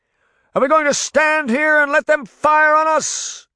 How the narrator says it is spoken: King Arthur shouted

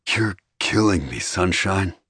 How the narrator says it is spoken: he growled

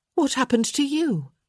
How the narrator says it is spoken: she exclaimed

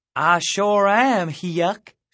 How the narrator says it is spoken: she said in a broad southern accent

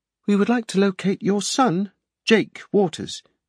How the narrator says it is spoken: Salmon said smoothly

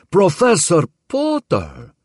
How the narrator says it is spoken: cried Harvey

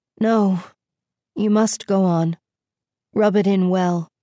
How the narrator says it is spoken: sighed Beauty

